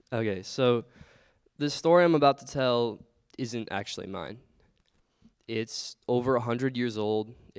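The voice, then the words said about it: Sick, strained voice. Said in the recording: “I'm feeling a little bit sick right now, so I apologize if my voice isn't the best”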